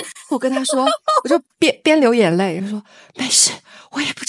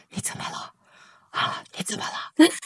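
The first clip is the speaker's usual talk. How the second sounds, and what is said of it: Whispered, quiet worried question. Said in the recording (Chinese): “小声说”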